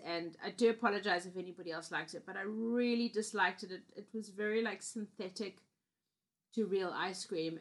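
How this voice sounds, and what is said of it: Slightly hoarse, throaty voice. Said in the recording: “coughing there... I have a little frog in my throat.”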